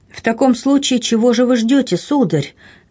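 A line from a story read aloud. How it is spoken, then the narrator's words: Ardent exclamation. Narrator (Russian): горячо воскликнула герцогиня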